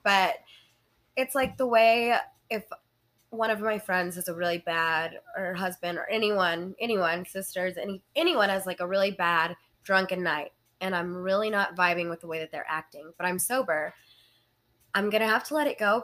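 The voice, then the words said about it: Slightly congested, stuffy voice. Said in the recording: “I have a little bit of a cold.”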